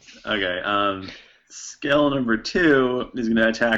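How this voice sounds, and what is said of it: Usual voice. Nothing is said of it.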